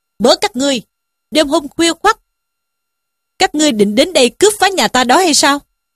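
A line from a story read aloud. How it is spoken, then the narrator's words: Shouted question. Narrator (Vietnamese): quát hỏi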